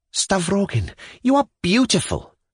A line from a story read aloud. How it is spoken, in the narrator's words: cried Pyotr Stepanovich, almost ecstatically